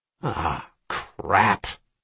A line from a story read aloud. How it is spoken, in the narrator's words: Ryan snarled